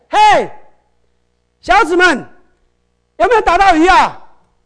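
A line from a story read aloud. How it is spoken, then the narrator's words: Shouting. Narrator (Chinese): 耶稣就在岸边，他叫起来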